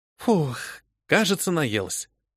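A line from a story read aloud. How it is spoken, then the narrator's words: Sighing. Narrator (Russian): вздохнула я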